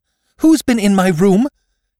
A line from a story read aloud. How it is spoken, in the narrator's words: She gasped